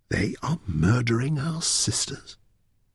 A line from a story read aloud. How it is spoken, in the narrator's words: she whispered